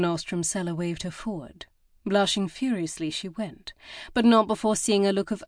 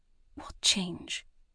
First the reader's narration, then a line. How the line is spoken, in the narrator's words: whispered